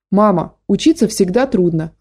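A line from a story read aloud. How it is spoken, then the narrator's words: Plain. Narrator (Russian): ответил Гошка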